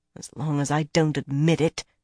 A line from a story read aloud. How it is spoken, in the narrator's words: Birgitta muttered